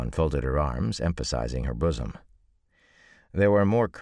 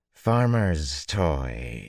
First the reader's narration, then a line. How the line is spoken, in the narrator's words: she drawled dismissively